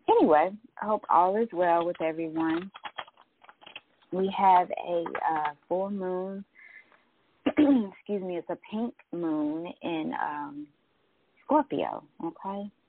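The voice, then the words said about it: Voice cutting in and out. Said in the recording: “I got a little allergies going on here. My voice is going in and out.”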